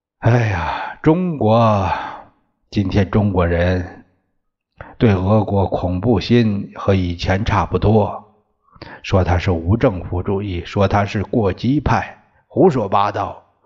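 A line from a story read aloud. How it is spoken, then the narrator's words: Sighing. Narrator (Chinese): 孙中山叹息着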